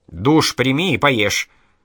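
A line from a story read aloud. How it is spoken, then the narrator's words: Stern. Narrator (Russian): строго сказала Хладивкер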